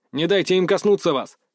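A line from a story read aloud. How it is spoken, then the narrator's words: Urgent alarmed bark. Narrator (Russian): рявкнул я, увидев магическим зрением, насколько силен этот магический яд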